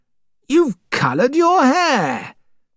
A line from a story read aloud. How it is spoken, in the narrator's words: I cried